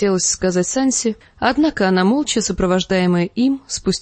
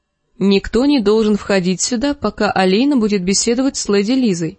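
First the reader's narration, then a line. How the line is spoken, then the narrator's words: Plain. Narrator (Russian): сказал им Марилон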